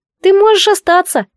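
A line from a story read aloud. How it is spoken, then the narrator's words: Squeaking. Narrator (Russian): пискнул Сив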